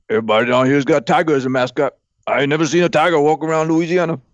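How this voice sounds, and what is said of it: Imitates another person's voice. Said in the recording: “my Ed O impression”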